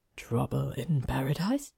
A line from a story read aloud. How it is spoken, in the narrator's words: Nev asked in a low voice